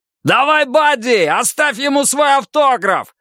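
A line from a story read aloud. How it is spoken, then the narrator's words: Joyful yell. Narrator (Russian): радостно завопил Дон Вандерберг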